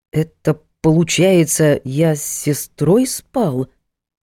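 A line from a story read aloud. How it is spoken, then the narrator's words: Dazed, drawn-out. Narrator (Russian): ошалело протянул Артур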